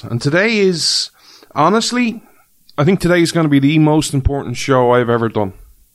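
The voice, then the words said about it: Irish accent. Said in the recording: “This Irish man ... you come for the accent.”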